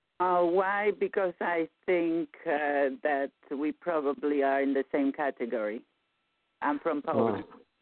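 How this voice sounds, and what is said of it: Eastern European accent. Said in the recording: “I thought you're from Hungary by listening to your accent.”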